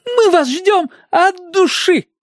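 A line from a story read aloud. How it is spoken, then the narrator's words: Shouting. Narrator (Russian): крикнул мне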